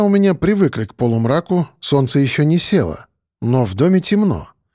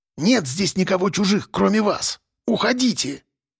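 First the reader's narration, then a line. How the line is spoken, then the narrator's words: Venomous hiss. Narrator (Russian): Змеюкой шипела тетя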